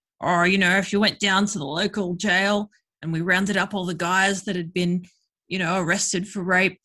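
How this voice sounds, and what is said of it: Bad put-on Australian accent. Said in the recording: “here's my bad Australian accent.”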